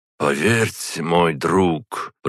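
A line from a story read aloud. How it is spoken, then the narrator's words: Sad. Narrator (Russian): произнес он печально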